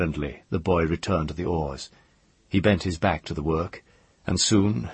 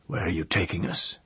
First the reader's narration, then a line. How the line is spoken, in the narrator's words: Sparrowhawk asked hoarsely